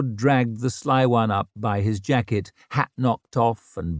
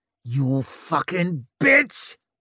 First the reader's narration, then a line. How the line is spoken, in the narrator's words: he snarled at Vic